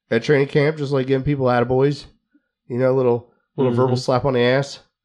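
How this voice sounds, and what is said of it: Worn, strained voice. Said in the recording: “I got bronchitis. ... my voice is a little half-assed. ... I was yelling a little bit every now and then.”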